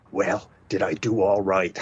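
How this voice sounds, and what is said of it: Impression of President Reagan. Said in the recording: “very good. Very good impression.”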